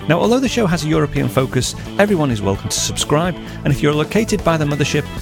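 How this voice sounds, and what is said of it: Speaks with a noticeable accent. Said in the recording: “my funny accent”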